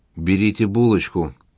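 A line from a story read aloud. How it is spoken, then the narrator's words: Plain. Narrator (Russian): сказал заказчик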